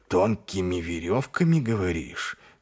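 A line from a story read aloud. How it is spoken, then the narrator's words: Thoughtful mutter. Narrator (Russian): задумчиво пробормотал Ваймс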